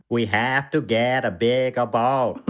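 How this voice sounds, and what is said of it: Impression of a Jaws quote. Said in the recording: “A great impression.”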